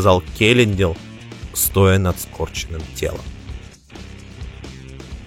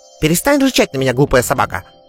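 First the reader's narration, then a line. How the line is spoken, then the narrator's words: Irritable snap. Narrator (Russian): огрызнулся Тифанис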